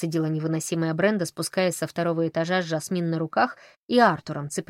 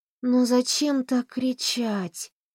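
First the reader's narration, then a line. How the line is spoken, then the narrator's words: Sleepy grumble. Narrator (Russian): сонно проворчала Мэри Лу, которая вместе с Вероникой Смит спала на диване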